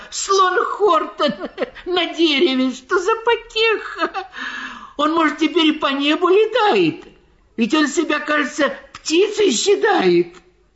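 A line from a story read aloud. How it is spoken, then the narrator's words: Animals shouting, breathless laughter. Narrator (Russian): Все звери лесные вокруг собрались, кричали они, задыхаясь от смеха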